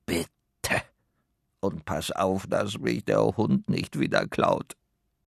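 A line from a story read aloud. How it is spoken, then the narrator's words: Growling hat. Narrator (German): knurrt der Hut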